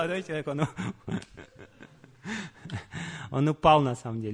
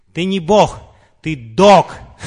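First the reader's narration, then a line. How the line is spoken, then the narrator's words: Full-volume shout. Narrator (Russian): Шрила Прабхупада закричал на полную мощность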